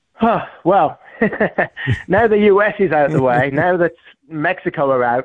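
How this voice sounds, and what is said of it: English accent. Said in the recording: “Obviously, we can hear your accent ... I grew up in England”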